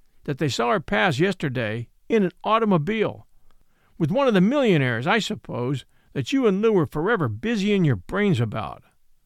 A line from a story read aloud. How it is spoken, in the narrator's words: said harshly